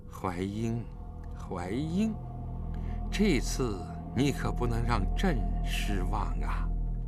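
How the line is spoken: Cold muttering to herself. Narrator (Chinese): 武则天满面寒霜地喃喃自语道

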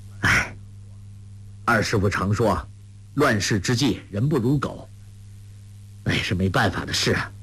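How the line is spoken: Sighing. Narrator (Chinese): 郭靖叹道

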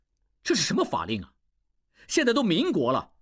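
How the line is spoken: Angry. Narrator (Chinese): 应济怒起

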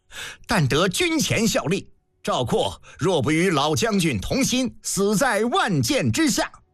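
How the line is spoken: Impassioned, loud. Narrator (Chinese): 赵括顿时感愤，高声道

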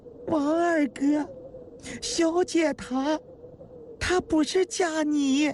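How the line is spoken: Tearful voice. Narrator (Chinese): 彩萍终于开口了，也是哭腔

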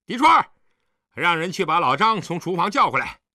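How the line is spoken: Loud call. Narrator (Chinese): 景辉高声叫道

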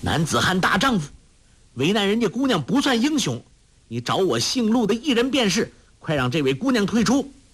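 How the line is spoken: Loud, while fighting. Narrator (Chinese): 陆冠英奋力招架，向侯同海大声说

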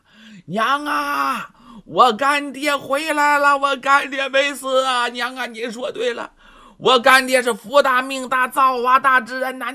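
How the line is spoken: Joyful shout. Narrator (Chinese): 程福高兴的呀，直接喊呐

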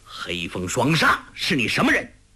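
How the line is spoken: Sharp demanding question. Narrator (Chinese): 他 一喝问

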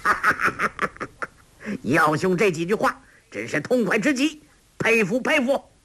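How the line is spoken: Hearty laugh, ringing voice. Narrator (Chinese): 欧阳锋哈哈大笑，朗声道

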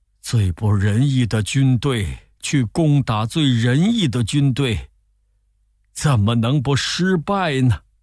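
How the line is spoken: Deep sigh. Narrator (Chinese): 孔融仰天长叹说

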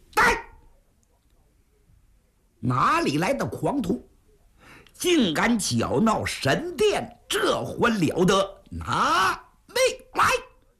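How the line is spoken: Loud shout. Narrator (Chinese): 高声喊喝

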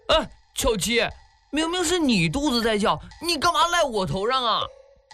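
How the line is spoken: Aggrieved shouting. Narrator (Chinese): 唐东安委屈极了 嚷

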